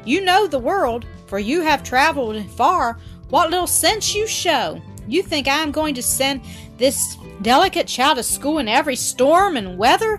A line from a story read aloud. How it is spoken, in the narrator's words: the old man said excitedly